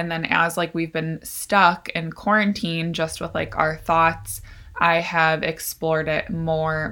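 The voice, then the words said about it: Hoarse, froggy voice. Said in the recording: “my voice is so froggy. I think it's just like allergies. Um, but sorry, I sound like a frog.”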